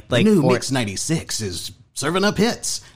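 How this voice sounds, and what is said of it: Friendly cool radio announcer voice. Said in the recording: “in DJ voice or in like announcer voice ... That's the friendly cool. voice”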